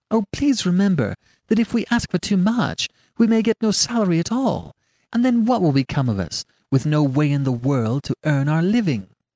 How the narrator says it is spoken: She kept pleading with me and saying

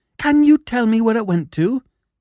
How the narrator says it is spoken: he cried

